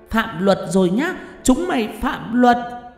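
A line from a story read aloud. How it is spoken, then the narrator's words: Shrill hiss. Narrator (Vietnamese): Con quỷ đầu đàn rít lên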